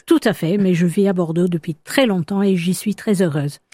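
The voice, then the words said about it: British accent speaking French. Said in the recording (French): “on l'entend à votre accent, vous êtes d'origine britannique”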